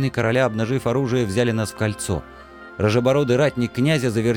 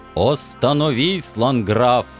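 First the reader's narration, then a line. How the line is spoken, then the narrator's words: Thundering familiar voice. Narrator (Russian): Еще раз прогремел знакомый голос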